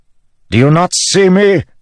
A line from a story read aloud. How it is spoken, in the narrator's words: Elokar bellowed